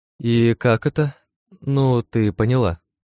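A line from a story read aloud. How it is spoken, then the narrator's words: Uncertain question. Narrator (Russian): неуверенно спросила Эрен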